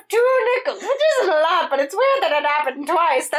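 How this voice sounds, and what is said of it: Doofenshmirtz cartoon character voice. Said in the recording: “That's my Doofenshmirtz impersonation, by the way. I think it's pretty damn good.”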